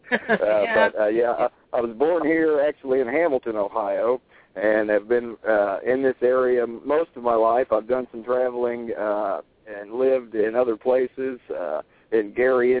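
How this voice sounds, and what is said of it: Southern-sounding American accent. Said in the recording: “your beautiful accent,... I'm assuming that you're from the South originally... I get accused a lot of being from further south than there.”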